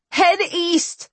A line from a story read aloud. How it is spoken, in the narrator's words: I shouted to Ian